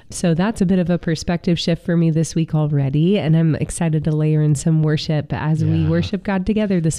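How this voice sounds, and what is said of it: Sick-sounding voice. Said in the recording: “as you can hear in my voice, I could use a little bit of a reset. Just been under the weather this week, trying to fight back a cold”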